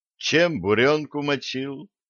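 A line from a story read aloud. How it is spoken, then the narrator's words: Sad question. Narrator (Russian): грустно спросил Юнгу Питер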